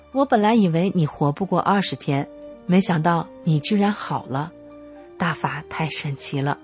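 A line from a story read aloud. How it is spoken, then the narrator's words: Amazed exclamation. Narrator (Chinese): 婆婆看到眼前铁一般的事实后，感叹道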